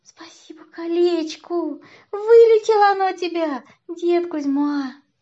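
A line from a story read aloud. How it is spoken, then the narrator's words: Laughing. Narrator (Russian): Варюша засмеялась, сказала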